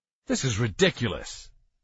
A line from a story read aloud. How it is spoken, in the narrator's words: he said in an angry tone